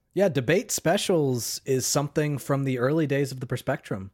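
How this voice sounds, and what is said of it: Slightly raspy voice. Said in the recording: “I'm getting a little sick. You might notice my voice is a little raspy.”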